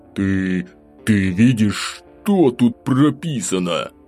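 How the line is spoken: Through gritted teeth. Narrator (Russian): процедил Тенишев в ответ

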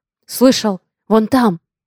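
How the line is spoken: Deep bass voice. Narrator (Russian): Пробасил кто-то другой

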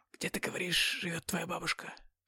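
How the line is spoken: Whispered question. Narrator (Russian): Шепотом спросил

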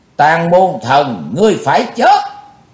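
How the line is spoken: Shouted. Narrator (Vietnamese): theo tiếng hét

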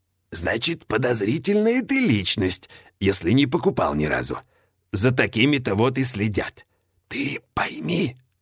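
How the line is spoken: Eerie whisper. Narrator (Russian): переходит он на жутковатый шепот

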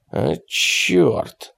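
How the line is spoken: Grumbled. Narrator (Russian): буркнул Питерс

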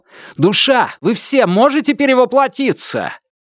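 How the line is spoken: Shouted. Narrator (Russian): Лун крикнул

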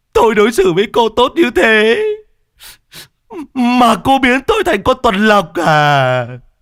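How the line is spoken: Whimpering, near tears. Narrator (Vietnamese): đại ca Trung lại mếu máo

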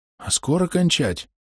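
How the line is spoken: Quiet question. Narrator (Russian): он тихонько спрашивает

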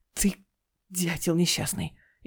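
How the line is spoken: Barely squeezed out, strained. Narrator (Russian): еле выдавил Дима

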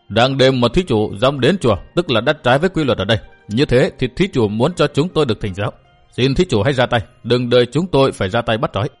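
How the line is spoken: Cold sneer, old man. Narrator (Vietnamese): Một lão cười nhạt

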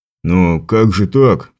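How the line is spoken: Mumbled. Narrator (Russian): промямлил один из констеблей

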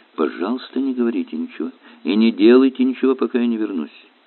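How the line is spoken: Quiet whisper. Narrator (Russian): Виллис тихо прошептал

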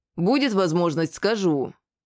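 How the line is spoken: Stern, considered. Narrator (Russian): строго произнес я, немного подумав

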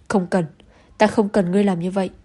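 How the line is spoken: Angry roar. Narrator (Vietnamese): Lưu Tần Phong tức giận gầm lên

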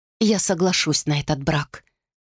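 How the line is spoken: Plain. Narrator (Russian): сказала она

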